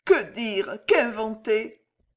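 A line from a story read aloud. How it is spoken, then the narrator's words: Inner sobbing. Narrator (French): sanglota-t-elle au fond d'elle-même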